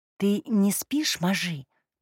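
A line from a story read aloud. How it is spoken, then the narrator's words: Whisper. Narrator (Russian): прошептала она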